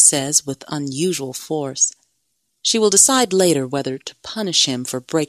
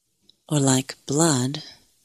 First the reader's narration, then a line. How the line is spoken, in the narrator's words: she mutters